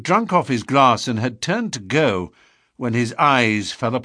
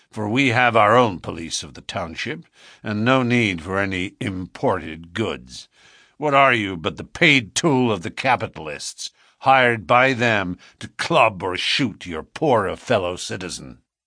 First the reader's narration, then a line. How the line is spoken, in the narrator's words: said McGinty coldly